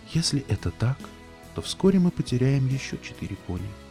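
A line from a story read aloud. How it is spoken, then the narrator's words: Whispered reply. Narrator (Russian): прошептала Селестия в ответ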